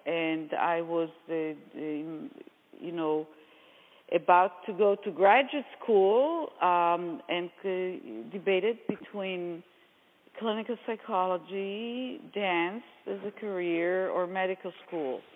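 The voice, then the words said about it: Israeli-accented English. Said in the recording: “as you might hear from my accent, I, am Israeli”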